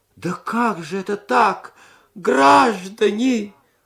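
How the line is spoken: Old man's womanish moan. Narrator (Russian): застонал старик по бабье

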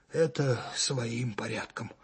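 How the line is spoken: Tired. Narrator (Russian): устало сказал майор

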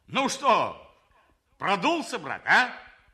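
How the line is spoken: Shouted. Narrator (Russian): крикнул он

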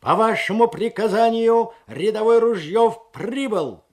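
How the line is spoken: Barked shout. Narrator (Russian): гаркнул

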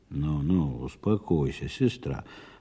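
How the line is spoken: Muttered. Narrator (Russian): пробормотал Михаил

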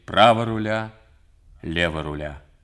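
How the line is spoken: Firm voice. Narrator (Russian): твердым голосом говорит

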